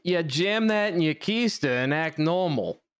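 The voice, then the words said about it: Reading aloud in a put-on accent. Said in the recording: “I'm glad you were able to read that with an accent. That's excellent.”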